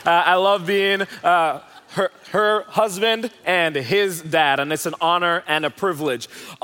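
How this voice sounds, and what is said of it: Jamaican accent. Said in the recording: “I'm originally from Jamaica, if you're wondering where the accent is from.”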